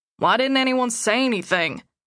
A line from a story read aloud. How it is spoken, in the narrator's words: Gabriel asked